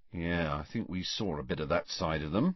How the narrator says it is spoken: said Ron in an undertone

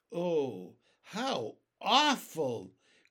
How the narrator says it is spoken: cried James

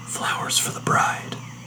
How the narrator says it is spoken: I whispered to myself

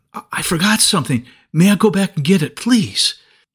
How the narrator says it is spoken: gasped and said

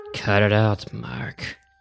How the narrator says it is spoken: Tim said, trying to sound tough, though his voice wavered slightly

